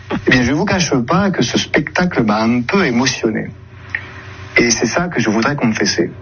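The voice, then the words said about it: Weak imitation of Marseille accent. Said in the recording (French): “On sent que ... essaie d'imiter l'accent marseillais, mais sans se lâcher totalement. Et ça donne l'accent, avouons-le, très bizarre, hein, une imitation pas trop réussi”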